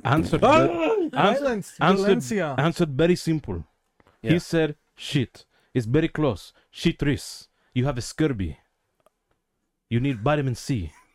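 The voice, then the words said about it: Put-on Puerto Rican accent. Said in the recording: “your accent is so... so Puerto Rican ... I'm making fun of our accent”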